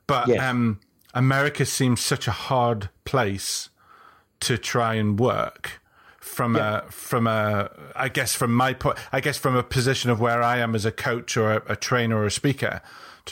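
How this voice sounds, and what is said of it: British accent. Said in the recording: “I do have a British accent.”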